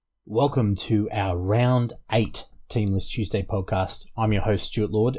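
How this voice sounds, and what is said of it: Slightly hoarse, fading voice. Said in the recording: “Losing my voice a little bit”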